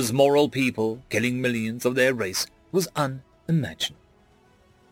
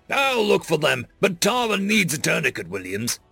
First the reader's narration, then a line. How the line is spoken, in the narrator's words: Mayor growled